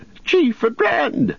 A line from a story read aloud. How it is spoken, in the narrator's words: shouted